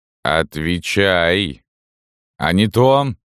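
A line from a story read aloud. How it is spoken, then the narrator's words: Muffled, gloomy voice. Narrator (Russian): как-то глухо и как-то особенно мрачно прозвучал голос Салтычихи в морозном воздухе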